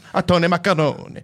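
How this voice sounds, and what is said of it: Slight Geppetto-style Italian accent. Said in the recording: “was that your Geppetto accent? ... Yes, just a slight Geppetto.”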